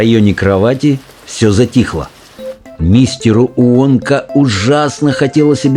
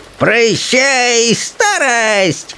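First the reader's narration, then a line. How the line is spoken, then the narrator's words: Old woman shouting. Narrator (Russian): кричала бабушка Джорджина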